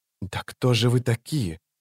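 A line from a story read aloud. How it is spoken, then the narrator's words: Whispering. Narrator (Russian): прошептала она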